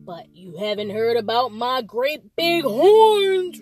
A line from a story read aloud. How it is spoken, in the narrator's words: roared the big billy goat Gruff crossly